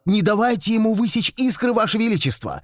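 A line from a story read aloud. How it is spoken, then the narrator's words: Witch shouting. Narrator (Russian): ведьма крикнула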